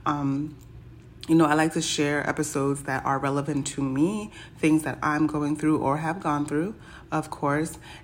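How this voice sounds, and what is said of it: Hoarse, croaky voice. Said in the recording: “my voice sounds crazy. I sound like I have a frog in my throat”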